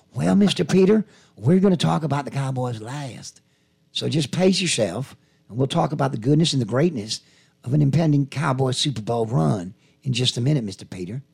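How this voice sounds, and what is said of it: Jerry Jones impression. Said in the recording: “my Jerry impersonation ... your Jerry Jones moment”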